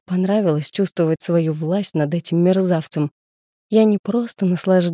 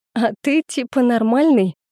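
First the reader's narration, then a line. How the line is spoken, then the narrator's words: Burst of laughter. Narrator (Russian): расхохоталась я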